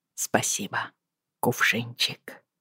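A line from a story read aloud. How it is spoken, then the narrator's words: Barely audible. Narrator (Russian): едва слышно произнес он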